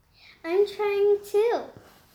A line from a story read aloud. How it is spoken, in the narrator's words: Camille piped up